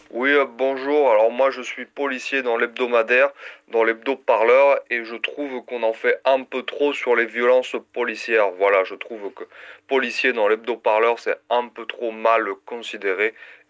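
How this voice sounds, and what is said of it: Bad put-on Southern French accent. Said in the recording (French): “l'accent du Sud ... cet accent est très très mauvais”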